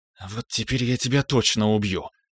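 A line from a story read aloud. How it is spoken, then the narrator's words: Quiet menacing threat. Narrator (Russian): тихо пообещала, сплюнув кровавую слюну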